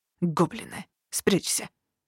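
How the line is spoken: Whisper. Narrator (Russian): шепнул

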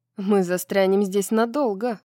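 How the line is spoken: Grumbling. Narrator (Russian): проворчала капитан

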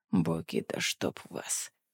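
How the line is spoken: Whispered curse. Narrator (Russian): шепотом выругался Рен

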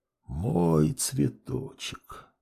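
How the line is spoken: Whispering. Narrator (Russian): продолжал шептать отец

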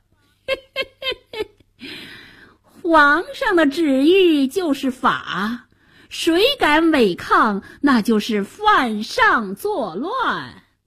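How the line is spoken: Sinister chuckle. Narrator (Chinese): 白脸宰相奸笑着

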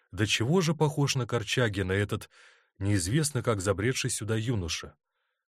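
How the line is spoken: Quiet. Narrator (Russian): Фигура у забора тихо проговорила

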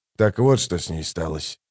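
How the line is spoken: Muttering. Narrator (Russian): пробормотал Хават

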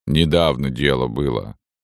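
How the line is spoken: Calm. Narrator (Russian): сообщал спокойно Кочедык

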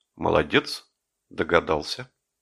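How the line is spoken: Brief, quiet, clear. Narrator (Russian): Жеглов сказал коротко, негромко и четко

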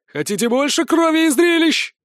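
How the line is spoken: Yelling close by. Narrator (Russian): Казалось, Грубин орал прямо в мое ухо

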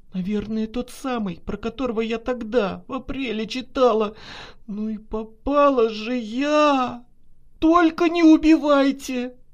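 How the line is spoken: Tearful pleading. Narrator (Russian): Взмолилась Наташа, заливаясь слезами

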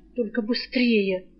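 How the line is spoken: Hiss. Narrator (Russian): прошипел Жар

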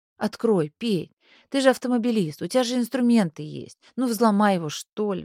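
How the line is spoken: Group pleading. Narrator (Russian): взмолились они

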